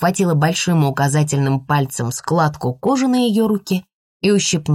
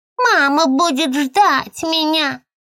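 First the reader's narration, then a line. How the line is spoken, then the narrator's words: Mocking high-pitched voice. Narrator (Russian): передразнила тонким голосом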